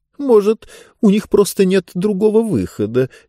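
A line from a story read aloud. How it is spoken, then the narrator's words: Hesitant suggestion. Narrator (Russian): неуверенно предположила книга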